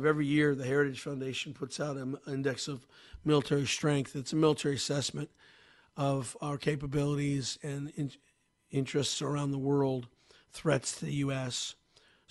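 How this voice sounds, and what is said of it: Voice not at full strength. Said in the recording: “my voice is still a little not up to snuff ... It's just the voice is bad.”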